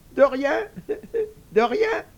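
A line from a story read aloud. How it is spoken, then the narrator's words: Little pig, chuckling inwardly. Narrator (French): dit le petit cochon en riant à part soi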